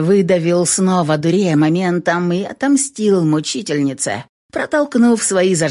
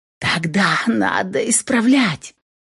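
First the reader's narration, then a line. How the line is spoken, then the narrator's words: Lewd whisper. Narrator (Russian): Прошептала она совершенно порочно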